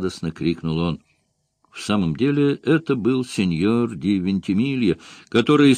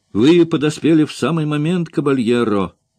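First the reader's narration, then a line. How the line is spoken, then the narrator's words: Shouting. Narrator (Russian): закричал Грамон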